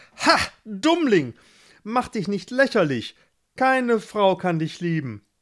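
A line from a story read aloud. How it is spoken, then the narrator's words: Calling out. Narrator (German): rief Gerhard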